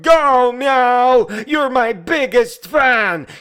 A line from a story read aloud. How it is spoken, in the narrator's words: the onion yelled